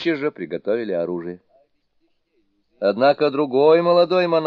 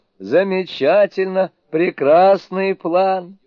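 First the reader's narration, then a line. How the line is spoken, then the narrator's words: Joyful, tearful. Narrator (Russian): Он вытер слезы и радостно сказал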